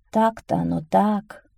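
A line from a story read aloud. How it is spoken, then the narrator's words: Old woman's sigh. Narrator (Russian): вздохнула старуха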